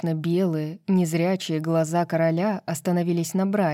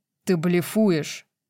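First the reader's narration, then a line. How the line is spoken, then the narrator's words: Growl. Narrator (Russian): зарычал Рун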